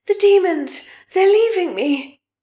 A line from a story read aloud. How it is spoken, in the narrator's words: cried with invented pain